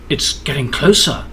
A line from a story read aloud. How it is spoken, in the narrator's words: the princess whispered